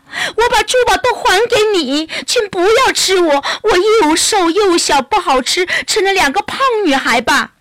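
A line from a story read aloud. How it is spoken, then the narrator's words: Crying out. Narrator (Chinese): 小矮人哭喊着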